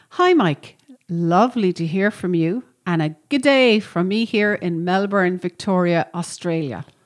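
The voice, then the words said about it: Attempted Australian accent. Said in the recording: “my attempt at an Australian accent”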